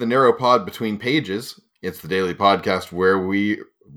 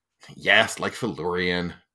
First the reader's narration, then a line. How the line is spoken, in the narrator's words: Bast said testily, thrown off his stride